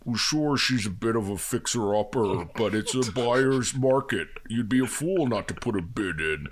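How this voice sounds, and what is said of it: Imitates a film villain's voice. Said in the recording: “best Buffalo Bill or the best Hannibal Lecter impression ... this is Buffalo Bill at his open house”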